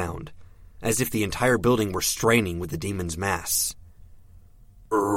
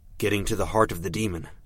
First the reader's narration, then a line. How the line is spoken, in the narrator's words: said